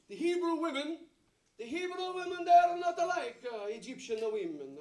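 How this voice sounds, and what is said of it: Put-on Italian-sounding accent. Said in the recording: “I don't know where I get this accent from ... they are more Italian. I can't help it. Is anyone here from Italy?”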